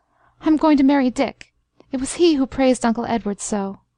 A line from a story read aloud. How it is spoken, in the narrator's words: she cried, a catch in her voice